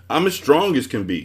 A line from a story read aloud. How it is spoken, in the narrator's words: he roared